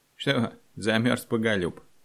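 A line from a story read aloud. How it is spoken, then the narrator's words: Mocking chuckle. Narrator (Russian): хохотнул выпускавший его стражник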